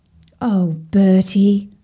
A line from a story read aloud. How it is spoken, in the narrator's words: sighed Sadie